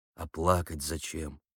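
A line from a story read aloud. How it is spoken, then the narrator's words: Quiet question. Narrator (Russian): тихо спросил Егоров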